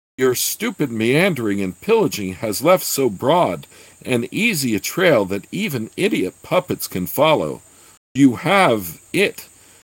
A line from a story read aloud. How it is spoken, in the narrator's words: Uz shrieked mentally